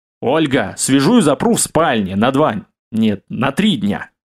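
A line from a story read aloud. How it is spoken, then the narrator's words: Growling. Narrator (Russian): зарычал я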